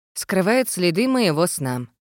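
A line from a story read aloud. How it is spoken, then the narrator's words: Gloomy remark. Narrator (Russian): мрачно заметила я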